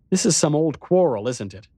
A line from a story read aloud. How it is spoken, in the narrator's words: I said impatiently